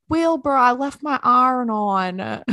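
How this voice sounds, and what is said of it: Poor put-on Baltimore accent. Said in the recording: “that was a terrible Baltimore accent.”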